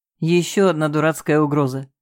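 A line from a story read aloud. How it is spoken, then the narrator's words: Chuckle. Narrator (Russian): хохотнул он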